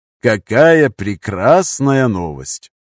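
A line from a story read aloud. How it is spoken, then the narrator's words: Drawling. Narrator (Russian): протянул Нардин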